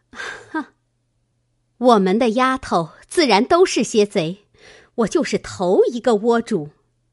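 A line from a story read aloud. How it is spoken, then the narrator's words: Sneering. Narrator (Chinese): 探春冷笑道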